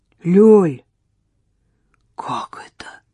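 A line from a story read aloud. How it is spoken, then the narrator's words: Breathless exhale. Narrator (Russian): выдохнул Егор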